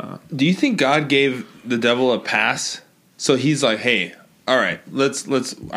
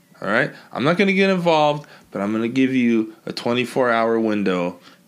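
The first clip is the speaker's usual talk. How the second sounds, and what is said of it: Put-on New York accent. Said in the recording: “I don't know why he has a New York accent... he'd probably be a New Yorker.”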